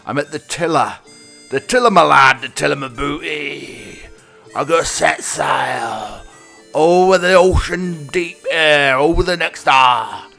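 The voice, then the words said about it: Pirate captain character voice. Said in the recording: “I don't think I could keep that voice going for a whole hour. It'd make me absolutely hoarse.”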